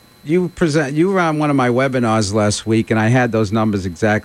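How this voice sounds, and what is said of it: East Coast New Jersey accent. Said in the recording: “my accent. It's a little on the east side of San Diego, like in Hoboken, New Jersey ... the Eastern accent”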